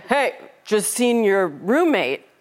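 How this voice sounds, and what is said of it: Put-on male voice. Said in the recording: “I'll be the guy. ... going to do my best guy voice.”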